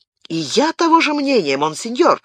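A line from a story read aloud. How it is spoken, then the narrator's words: Surprised, delighted exclamation. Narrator (Russian): воскликнул Габриэль, удивленный и обрадованный подобным тождеством их взглядов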